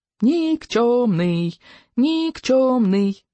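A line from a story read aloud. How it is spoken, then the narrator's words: Dragons joyfully chanting. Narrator (Russian): Драконы радостно подхватывали этот крик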